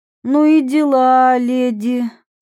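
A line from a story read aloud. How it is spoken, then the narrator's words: Breathless exhale. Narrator (Russian): выдохнула Мира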